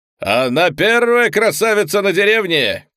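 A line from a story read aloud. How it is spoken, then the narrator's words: Shouting. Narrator (Russian): кричал Гастон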